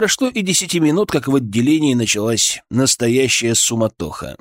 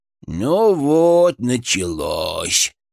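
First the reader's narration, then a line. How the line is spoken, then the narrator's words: Mournful drawl. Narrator (Russian): с тоской протянул Фырк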